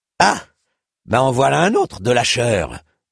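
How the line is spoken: Dwarf grumbling, less cordial. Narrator (French): gronda le nain sur un ton moins cordial

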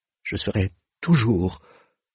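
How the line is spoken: Stammered. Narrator (French): balbutia-t-il

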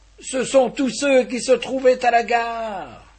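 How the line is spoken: Yelling. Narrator (French): hurlait-il

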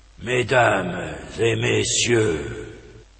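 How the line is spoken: Weak, slow, tired voice. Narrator (French): fit le capitaine d'une voix faible, lente et un peu fatiguée

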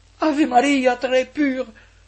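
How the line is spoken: Cried out. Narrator (French): s'écria Ursula

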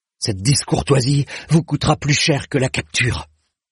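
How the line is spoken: Hissed. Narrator (French): siffla le chevalier de Kéan

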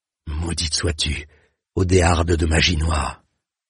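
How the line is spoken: Murmured curse. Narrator (French): murmura-t-elle

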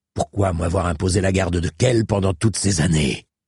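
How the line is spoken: Growling. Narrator (French): gronda

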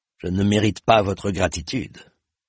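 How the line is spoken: Grumbled. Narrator (French): grommeler

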